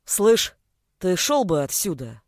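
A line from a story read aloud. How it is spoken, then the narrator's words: Low bass growl. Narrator (Russian): низким басом прорычал он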